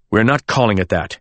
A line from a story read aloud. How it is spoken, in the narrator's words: my father snapped, as if I'd said something obscene